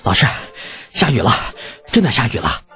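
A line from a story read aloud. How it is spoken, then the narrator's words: Excited and breathless. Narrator (Chinese): 马周喘着粗气，兴奋地说道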